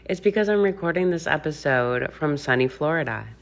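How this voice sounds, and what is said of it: Smiling, cheerful voice. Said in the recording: “Can you hear the smile in my voice?”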